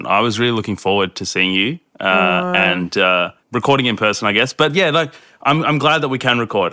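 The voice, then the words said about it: Sick voice. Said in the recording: “I've got COVID at the moment, so apologies to everyone that I sound the way that I sound ... I kind of like a sick voice”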